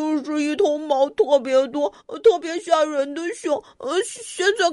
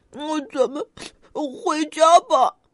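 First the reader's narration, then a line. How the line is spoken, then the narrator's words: Crying. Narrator (Chinese): 小胖哭着说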